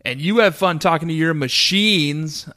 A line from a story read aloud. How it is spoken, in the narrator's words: I yelled